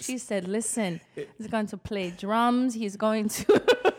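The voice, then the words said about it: Put-on Caribbean, slightly Jamaican accent. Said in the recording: “I don't know what accent I was doing ... I call it soca ... Sound like a little Jamaican in there.”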